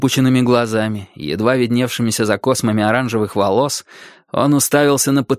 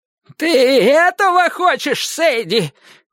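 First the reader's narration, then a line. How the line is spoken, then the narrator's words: Shouted. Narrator (Russian): крикнул Клейтон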